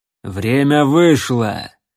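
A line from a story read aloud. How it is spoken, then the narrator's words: Barked. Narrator (Russian): рявкнул Бальтазар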